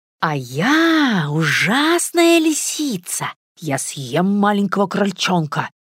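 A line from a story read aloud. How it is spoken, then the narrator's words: Scary voice, promising. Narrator (Russian): Страшным голосом пообещала Наташа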